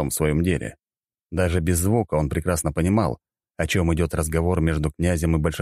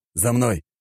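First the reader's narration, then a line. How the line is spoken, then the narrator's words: Growled command. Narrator (Russian): рыкнул Павел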